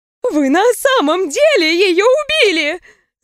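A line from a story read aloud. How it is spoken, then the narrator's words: Shrieking bride. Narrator (Russian): завизжала невеста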